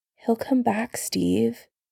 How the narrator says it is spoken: he said quietly

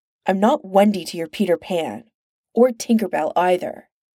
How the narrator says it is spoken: Irrationally irritated, Trisha snaps

